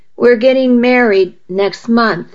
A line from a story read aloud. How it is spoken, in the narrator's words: she said